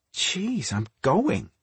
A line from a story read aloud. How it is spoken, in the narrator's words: Patty muttered